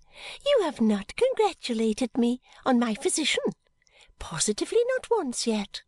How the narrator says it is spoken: she said gaily

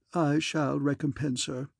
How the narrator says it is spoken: said Aunt Agatha feebly

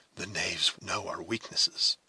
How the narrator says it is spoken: whispered Hawkeye

